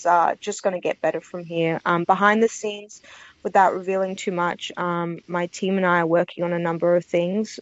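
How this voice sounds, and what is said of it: Speaks with a noticeable accent. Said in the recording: “you have a lovely accent ... Very, very lovely voice.”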